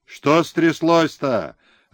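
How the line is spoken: Shouted from horseback. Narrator (Russian): закричал с коня подскакавший хлопуша

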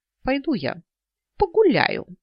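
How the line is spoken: Loud declaration. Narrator (Russian): громко заявила

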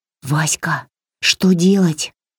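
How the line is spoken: Whisper. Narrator (Russian): прошептала Варя

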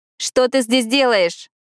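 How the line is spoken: Shouting over wind. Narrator (Russian): крикнула Пиппа сквозь шум темного ветра

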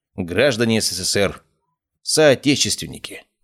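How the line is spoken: Solemn announcer over radio. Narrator (Russian): торжественно вещал из радиоприемника голос диктора

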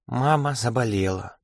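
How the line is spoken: Girl whispering. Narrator (Russian): шепотом повторила девочка

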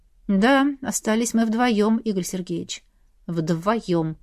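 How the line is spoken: Tired speaking. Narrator (Russian): Устало произнес Илья

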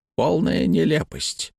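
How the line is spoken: Muttered. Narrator (Russian): пробормотал Хэммонд

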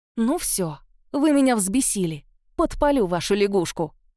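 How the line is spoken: Angry bark. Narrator (Russian): рявкнула

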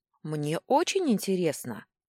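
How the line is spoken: Exclaimed. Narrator (Russian): воскликнула я

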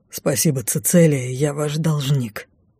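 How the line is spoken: Breathless exhale. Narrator (Russian): выдохнул Лайс

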